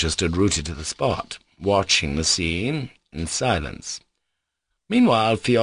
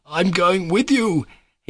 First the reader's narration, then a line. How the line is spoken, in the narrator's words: he kept shouting, laughing a thin, mirthful laugh with a look of reckless glee